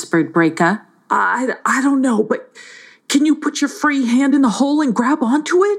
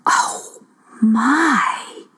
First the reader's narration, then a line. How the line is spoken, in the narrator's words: she gasped